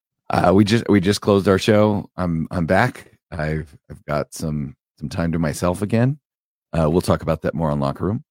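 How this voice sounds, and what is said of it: Wrecked, lower-than-usual deep voice. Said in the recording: “my voice is a little wrecked. It's a little bit lower than usual. It's a little Barry White.”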